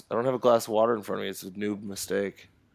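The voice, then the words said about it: Strained, fading voice. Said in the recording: “I've kind of started losing my voice.”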